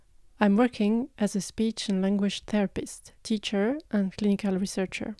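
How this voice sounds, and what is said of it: French accent. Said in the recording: “As you may notice with my accent, I'm French.”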